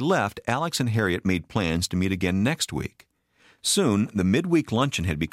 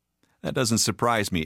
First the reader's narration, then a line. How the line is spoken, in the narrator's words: Alex chuckled